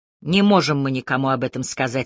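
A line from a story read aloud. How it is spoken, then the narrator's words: Changed voice. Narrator (Russian): сказал Кассис уже совсем другим голосом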